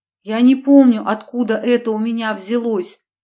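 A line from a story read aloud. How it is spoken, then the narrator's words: Tearful exclamation. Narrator (Russian): воскликнула медсестра со слезами в голосе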